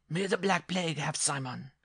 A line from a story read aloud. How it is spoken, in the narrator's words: the dwarf cried